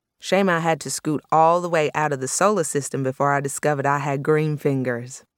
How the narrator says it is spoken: In her Texan drawl, she would say

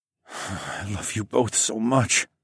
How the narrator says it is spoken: I moaned

